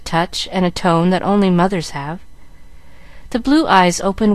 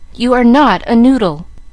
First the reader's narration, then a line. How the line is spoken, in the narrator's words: cried Mamma, resenting the epithet